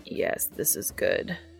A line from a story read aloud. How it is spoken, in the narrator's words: Castiel croaks